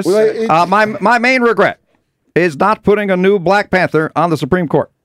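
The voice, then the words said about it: Imitates another person's voice, badly. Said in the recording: “my bad Obama impression”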